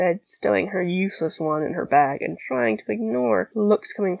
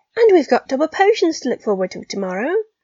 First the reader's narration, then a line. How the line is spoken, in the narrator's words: Pansy said brightly